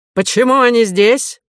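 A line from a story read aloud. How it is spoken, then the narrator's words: Shouting. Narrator (Russian): закричал он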